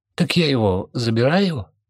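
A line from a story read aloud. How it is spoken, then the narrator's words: Uncertain remark. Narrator (Russian): обронил он неуверенно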